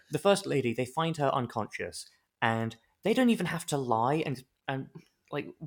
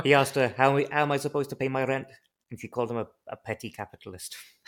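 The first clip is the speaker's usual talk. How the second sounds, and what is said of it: Put-on accent slipping at the end. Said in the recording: “That accent really got away from me at the end there. I don't even know where that went.”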